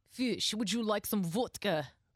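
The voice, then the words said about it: Put-on Russian accent, pretty good. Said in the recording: “Let me hear you do Russian. ... Ooh, pretty good. ... not bad.”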